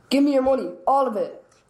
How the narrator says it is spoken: shouts

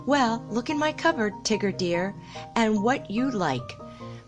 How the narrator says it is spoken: Kanga said very kindly

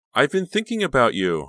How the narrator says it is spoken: Honey said cheerfully

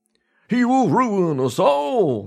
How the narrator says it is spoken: they shouted

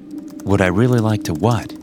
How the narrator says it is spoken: I replied

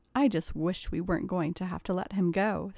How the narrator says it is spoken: sighed Katie

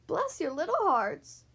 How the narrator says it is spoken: cried

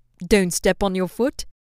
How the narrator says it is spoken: Silver asked, pleased

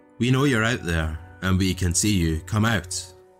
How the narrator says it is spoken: They called out to us, yelling things like

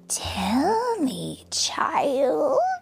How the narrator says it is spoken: she whispered

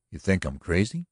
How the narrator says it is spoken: he asked sharply

